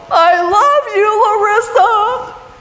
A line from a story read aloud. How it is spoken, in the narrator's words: I yelled